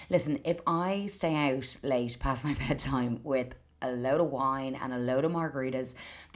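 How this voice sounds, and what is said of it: Hoarse voice. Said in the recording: “Apologies for my voice. I'm definitely a bit hoarse today.”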